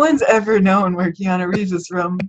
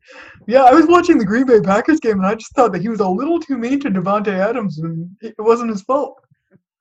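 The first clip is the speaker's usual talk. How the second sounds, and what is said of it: Imitation with Canadian-sounding voice. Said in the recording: “my Keanu Reeves impression. ... You were doing like a Canadian thing, yeah.”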